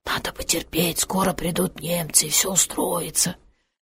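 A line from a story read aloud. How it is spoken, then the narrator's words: Whispered. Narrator (Russian): невообразимые разговоры шепотом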